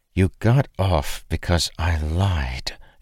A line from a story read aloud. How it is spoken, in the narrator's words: hissed under her breath